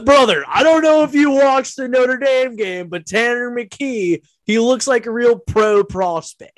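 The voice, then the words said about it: Mocking impression of someone. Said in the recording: “that was an impression”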